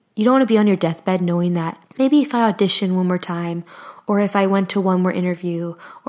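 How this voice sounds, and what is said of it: Strained, hoarse voice. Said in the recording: “I'm slowly losing my voice in this episode. I got very passionate and very into it, and I forgot to drink water most of the time, so my voice is a little shot”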